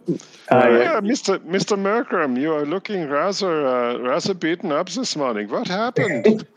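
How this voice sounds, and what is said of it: Put-on German accent. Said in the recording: “the innkeeper here has got a German accent”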